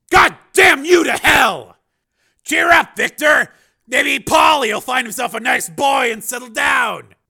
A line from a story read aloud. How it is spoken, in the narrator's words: Borodini screamed